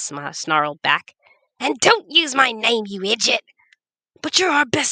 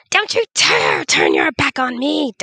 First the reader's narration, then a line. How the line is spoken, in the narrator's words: Darnum screamed after him